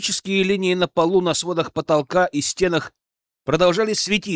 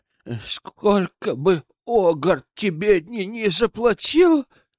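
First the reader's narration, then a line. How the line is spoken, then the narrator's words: Trembling voice. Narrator (Russian): дрожащим голосом произнес Азраил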